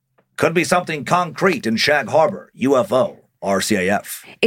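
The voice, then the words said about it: Old-timey radio announcer voice. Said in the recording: “Is that your old-timey radio voice?”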